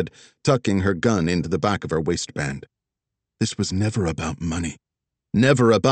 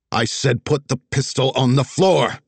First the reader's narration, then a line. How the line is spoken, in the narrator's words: Tessa barked